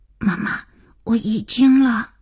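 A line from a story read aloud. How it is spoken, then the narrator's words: Hurried frightened child whisper. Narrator (Chinese): 儿子急促惶恐的小声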